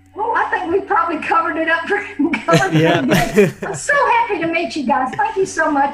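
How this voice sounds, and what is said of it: Speaks with a noticeable accent. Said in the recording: “I hope my accent's not too bad.”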